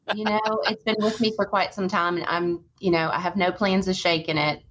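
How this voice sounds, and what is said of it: Southern American accent. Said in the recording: “your Southern voice... Southern accent... sometimes it's a little thicker than other times”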